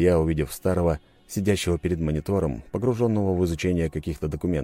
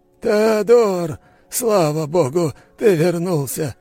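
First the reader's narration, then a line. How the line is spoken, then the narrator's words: Old man's relieved exhale. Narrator (Russian): Старик облегченно выдохнул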